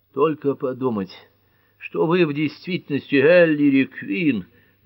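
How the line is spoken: Sighing. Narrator (Russian): вздохнула Герми

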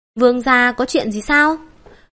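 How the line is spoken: Smiling question. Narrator (Vietnamese): Bành Hữu Tại mỉm cười hỏi

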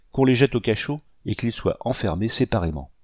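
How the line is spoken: Angry cry. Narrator (French): s'écria Delgrès avec colère

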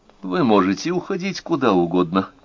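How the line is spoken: Calm answer. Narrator (Russian): спокойно ответила она

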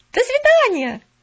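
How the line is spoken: Shout. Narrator (Russian): крикнула она

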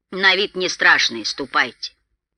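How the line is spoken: Loud laughter. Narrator (Russian): Он громко захохотал

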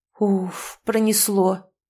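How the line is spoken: Relieved exhale. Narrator (Russian): с явным облегчением выдохнул Кип

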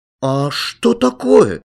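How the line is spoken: Frightened question. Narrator (Russian): испуганно спрашивает Алян

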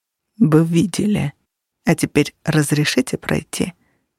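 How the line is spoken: Smooth, quiet voice. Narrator (Russian): проговорил Менчарес гладким, тихим голосом

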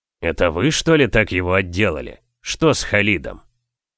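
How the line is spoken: Feigned innocent mutter. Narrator (Russian): Сделав невинное лицо, я пробормотала

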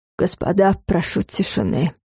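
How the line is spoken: Hoarse. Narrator (Russian): хрипло начал он

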